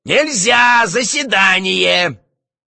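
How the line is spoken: Shouting. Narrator (Russian): Варенуха также кричал

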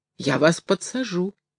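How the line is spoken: Timid hunchback's answer. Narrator (Russian): робко отвечал Горбун

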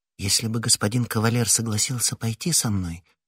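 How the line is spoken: Timid. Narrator (Russian): робко сказала Кэтти

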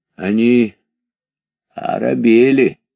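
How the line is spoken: Hoarse, trusting voice. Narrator (Russian): сказал он хриплым доверчивым голосом

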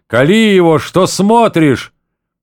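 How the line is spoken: Man shouting. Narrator (Russian): Другой человек кричал

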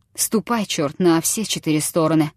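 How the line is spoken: Through clenched teeth. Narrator (Russian): проговорил он сквозь зубы

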